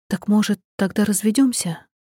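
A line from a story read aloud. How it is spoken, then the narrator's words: Quiet, barely audible. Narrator (Russian): Мой голос звучит тихо и почти не слышно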